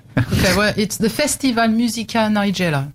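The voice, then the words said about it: French accent. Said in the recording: “in her gorgeous French accent”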